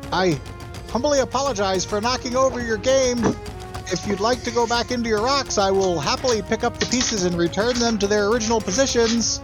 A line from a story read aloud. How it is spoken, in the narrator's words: he shouts in Dwarvish